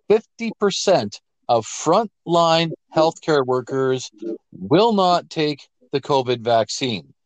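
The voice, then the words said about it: Slow, deliberate emphatic speech. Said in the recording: “I'm saying that slowly so it sinks in”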